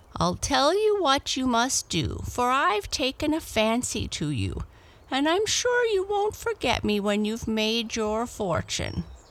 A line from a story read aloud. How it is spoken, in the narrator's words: The old woman, who guessed his thoughts, laughed kindly and said